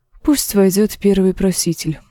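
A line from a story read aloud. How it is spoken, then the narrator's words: Sighing. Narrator (Russian): вздохнула Дэнни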